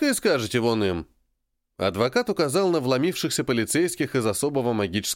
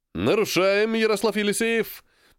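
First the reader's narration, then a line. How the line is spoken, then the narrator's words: Cheerful question. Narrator (Russian): бодро поинтересовался полицейский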